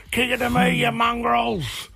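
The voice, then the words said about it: Broad ocker Australian footy bloke accent. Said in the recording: “you go like really ochre footy style around footy blokes”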